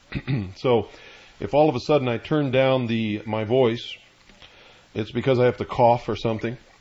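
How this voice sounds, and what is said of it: Congested voice from a cold. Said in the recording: “I have a little cold”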